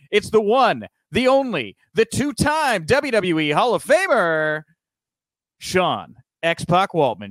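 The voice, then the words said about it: Over-the-top game show host voice. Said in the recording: “is that your Guy Smiley impression? ... I just kind of thought I'd do a game show voice”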